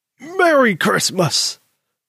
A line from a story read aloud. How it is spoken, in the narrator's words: Granddaddy hollered out from the kitchen